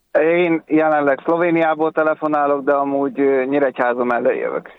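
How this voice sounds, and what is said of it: Slight familiar regional accent. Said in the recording (Hungarian): “Ismerős hát, a akcentusod. ... Valami kis akcentus.”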